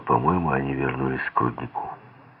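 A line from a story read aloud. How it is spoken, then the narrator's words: Calm statement. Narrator (Russian): Мэри спокойно сказала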